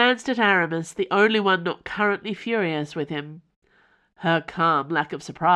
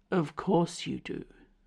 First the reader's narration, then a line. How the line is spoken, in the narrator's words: said Athos calmly